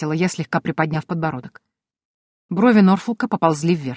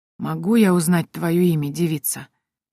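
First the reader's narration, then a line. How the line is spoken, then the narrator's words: Hoarse inquiry. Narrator (Russian): хриплым голосом поинтересовался Адам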